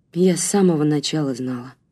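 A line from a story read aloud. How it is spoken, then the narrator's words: Tired reply. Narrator (Russian): устало ответила Марина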